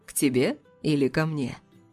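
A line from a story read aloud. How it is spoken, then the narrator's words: Purring, flirtatious. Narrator (Russian): промурлыкал этот котяра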